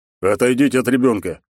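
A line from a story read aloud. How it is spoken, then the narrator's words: Growled, big man. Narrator (Russian): прорычал здоровяк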